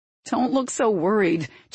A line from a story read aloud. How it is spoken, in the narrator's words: chuckled Evan